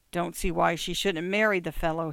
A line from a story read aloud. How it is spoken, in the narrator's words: mumbled